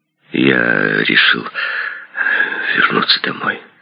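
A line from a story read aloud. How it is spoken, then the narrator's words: Hoarse whisper. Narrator (Russian): хриплым шепотом сказал Ли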